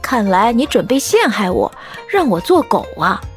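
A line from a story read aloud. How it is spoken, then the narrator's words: Laughing. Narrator (Chinese): 我笑着说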